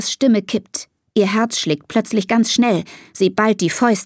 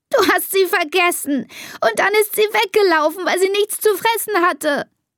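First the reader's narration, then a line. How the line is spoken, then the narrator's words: Sobbing. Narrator (German): schluchzt Elisa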